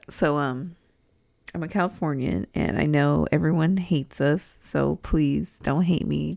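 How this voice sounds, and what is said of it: Californian accent with rising intonation. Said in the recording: “I'm from California, if you couldn't tell by my accent ... everything I say sounds like a question”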